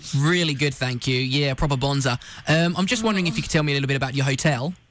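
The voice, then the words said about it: Put-on Australian accent. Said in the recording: “doing my Australian accent”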